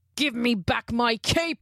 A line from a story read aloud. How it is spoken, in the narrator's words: He roared